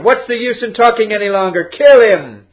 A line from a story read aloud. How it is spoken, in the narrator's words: One of the students shouted